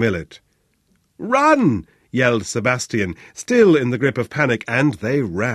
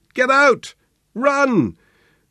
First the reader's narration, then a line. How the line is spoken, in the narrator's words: Sebastian's shouted warning was as wheezy as it was unnecessary